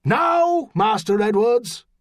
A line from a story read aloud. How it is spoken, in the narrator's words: he shouted